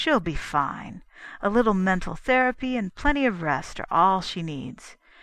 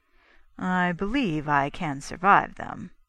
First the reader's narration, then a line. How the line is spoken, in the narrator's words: Brainerd said dryly